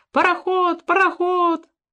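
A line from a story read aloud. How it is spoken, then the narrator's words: Crowd shouting. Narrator (Russian): Все они кричали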